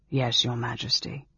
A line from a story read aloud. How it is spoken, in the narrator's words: said dryly